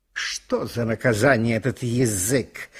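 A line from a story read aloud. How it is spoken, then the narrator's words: Grumbling. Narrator (Russian): ворчали зубы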